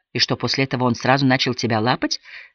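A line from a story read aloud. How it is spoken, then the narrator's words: Plain. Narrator (Russian): спросила Мими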